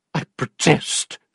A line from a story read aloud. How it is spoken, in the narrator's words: cried her aunt